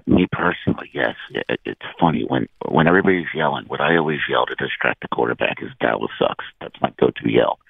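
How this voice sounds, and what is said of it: Hoarse, froggy voice from yelling. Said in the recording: “It hurts to talk so bad. ... It's a little froggy. ... was that the loudest you ever yelled?”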